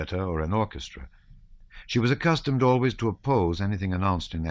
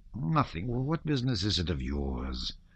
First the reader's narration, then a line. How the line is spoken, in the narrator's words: muttered the Count angrily